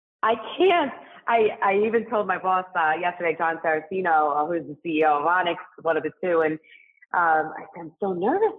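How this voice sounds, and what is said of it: New York accent. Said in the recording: “I'm detecting a little New York in your language ... You hear the accent.”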